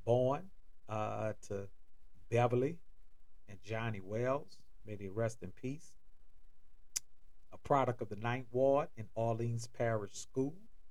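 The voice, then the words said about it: New Orleans accent. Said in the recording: “you may hear it in my accent. I'm originally from and born in New Orleans, Louisiana.”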